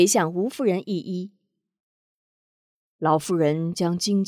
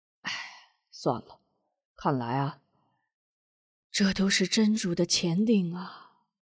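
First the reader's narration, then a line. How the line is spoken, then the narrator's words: Soft sigh, tearful. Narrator (Chinese): 韩平 轻轻的叹了口气，双眼含泪道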